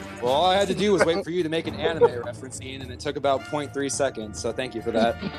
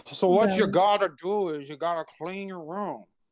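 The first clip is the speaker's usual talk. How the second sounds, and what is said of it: Imitates another person's voice. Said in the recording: “that was terrible. ... I don't do a good band impression, but I wanted to try.”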